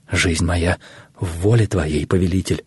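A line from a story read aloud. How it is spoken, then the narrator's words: Forced out, struggling for composure. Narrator (Russian): наконец, справляясь с собой, выдавил Гаумата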